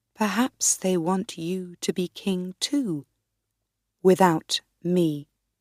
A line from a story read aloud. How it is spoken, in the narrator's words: I said quietly